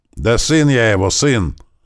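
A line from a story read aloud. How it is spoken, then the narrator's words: Frightened shouting. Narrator (Russian): закричал я, стараясь криком отогнать свой страх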